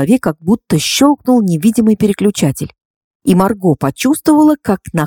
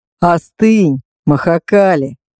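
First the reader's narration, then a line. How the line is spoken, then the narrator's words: Conciliatory tone. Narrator (Russian): проговорил он примирительным тоном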